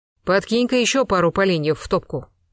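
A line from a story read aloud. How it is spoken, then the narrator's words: Commanding tone. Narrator (Russian): повелительным тоном приказал граф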